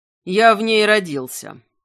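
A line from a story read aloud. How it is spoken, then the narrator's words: Growling reply. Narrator (Russian): также рычанием ответил Огнияр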